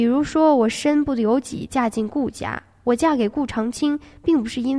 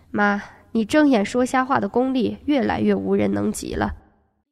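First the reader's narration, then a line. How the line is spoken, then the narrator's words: Soft laugh. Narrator (Chinese): 对方轻笑了声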